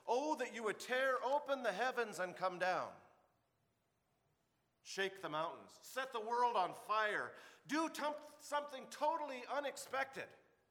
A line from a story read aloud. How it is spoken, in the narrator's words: They cried out